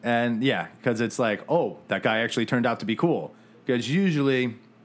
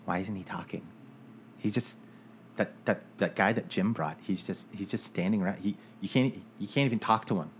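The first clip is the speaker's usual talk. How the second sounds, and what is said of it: Man doing a put-on girl voice. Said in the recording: “I don't know if that's a girl voice or if that's Woody Allen. ... Sounded an awful lot like Woody Allen. ... I'm kind of like Monty Python when it comes to like doing my girl voice. ... I'm terrible at doing girl voices.”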